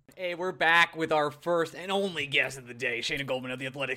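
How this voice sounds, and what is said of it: Imitates another person's voice. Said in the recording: “my Macho Man impression? ... You think that's Macho Man? ... No, it was terrible.”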